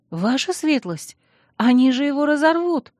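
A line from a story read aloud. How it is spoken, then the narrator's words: Frightened pleading squeak. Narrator (Russian): Испуганно пискнула я, взывая к состраданию мужа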